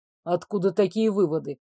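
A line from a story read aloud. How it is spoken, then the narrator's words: Cold. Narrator (Russian): холодно уточнил герцог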